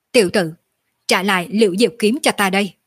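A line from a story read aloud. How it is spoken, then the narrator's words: Ice-cold shout. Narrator (Vietnamese): một thanh âm lạnh như băng quát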